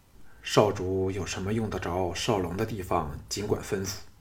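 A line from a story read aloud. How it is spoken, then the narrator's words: Low voice. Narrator (Chinese): 项少龙 低声问道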